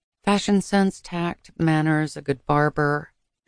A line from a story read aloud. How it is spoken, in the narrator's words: she murmured, so softly that Austin could barely hear